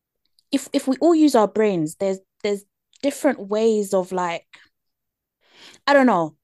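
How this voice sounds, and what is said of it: British accent. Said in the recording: “you hear me with my British accent”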